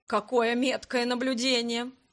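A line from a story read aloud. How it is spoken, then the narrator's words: Laughing loudly. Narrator (Russian): расхохотался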